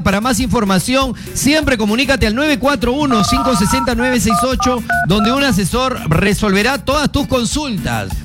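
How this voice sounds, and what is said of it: Italian accent. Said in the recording (Spanish): “Te noto con un acento italiano.”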